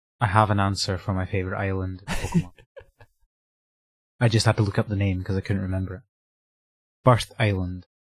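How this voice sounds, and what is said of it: Speaker's noticeable accent. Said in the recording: “my accent's getting in the way again”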